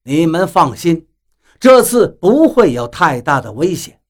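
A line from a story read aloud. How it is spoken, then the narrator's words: Laughing. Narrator (Chinese): 比利笑道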